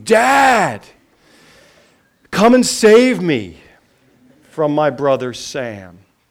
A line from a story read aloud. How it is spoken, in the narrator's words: her scream